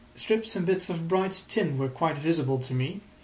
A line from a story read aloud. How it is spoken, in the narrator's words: he said